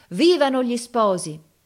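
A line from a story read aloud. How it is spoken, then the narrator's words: Crowd shouting. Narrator (Italian): tutta la gente gridava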